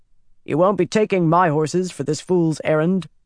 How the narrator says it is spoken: Bryn said sternly

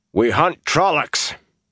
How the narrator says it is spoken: Perrin shouted over his shoulder

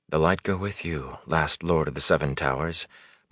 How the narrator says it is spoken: Moraine said almost too softly for Rand to hear

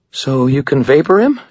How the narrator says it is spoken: she asked, her voice unsteady

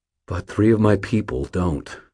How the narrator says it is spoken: said, my voice harsh

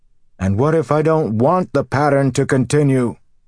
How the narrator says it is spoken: he bellowed

